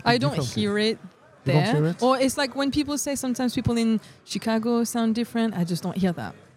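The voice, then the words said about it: French-tinged English, British and Australian notes. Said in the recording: “I have a mix of British and Australian ... there's a bit of French in me ... there's some words that I say that people tell me uh, I, it sounds Australian ... I don't sound uh, American, not yet”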